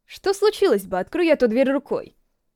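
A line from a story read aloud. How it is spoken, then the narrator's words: Quick question. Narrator (Russian): быстро спросил он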